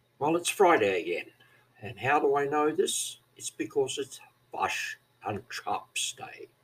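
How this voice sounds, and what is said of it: New Zealand Kiwi accent. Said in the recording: “according to some, I speak like a Scotsman, that is, I have a Kiwi accent”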